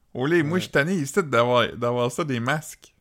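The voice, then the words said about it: Exaggerated Edmundston Acadian French accent. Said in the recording (French): “vous pouvez entendre notre accent, euh, mais d'une façon plus euh, prononcée ... des gens d'Edmundston ... c'est Edmundston, ça?”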